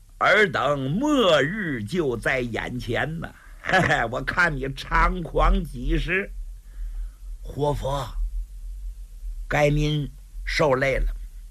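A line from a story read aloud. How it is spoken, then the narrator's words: Cold sneering laugh. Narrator (Chinese): 高廉冷笑几声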